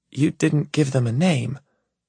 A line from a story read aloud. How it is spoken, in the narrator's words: she says softly